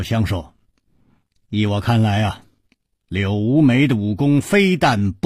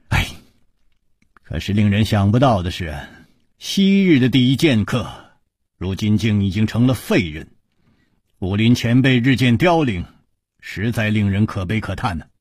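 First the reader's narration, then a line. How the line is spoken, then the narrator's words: Long sigh. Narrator (Chinese): 楚留香长叹说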